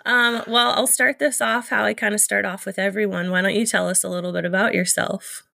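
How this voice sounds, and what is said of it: Voice affected by a cold. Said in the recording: “excuse my voice. I'm fighting off a cold”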